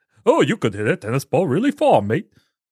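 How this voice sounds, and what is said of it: Unconvincing put-on British accent. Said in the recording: “I don't know what accent that is ... that's not a posh royalty kind of accent”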